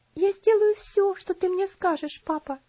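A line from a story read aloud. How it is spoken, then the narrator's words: Sobbing. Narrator (Russian): всхлипнула она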